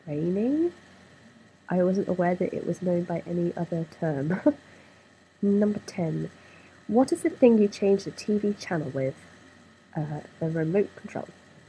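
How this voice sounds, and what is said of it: Speaker's own regional accent. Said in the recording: “So that was my accent.”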